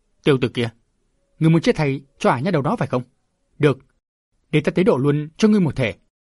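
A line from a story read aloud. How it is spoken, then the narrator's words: Furious shout. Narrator (Vietnamese): Hắc Sát nổi giận quát lớn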